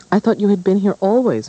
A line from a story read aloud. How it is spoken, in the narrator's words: Matilda cried